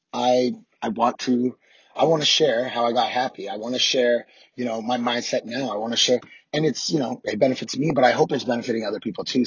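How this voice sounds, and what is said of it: Hoarse, rough voice. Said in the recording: “I am hoarse as shit. I'm aware of that. Do not adjust your audio. My voice is fucked up.”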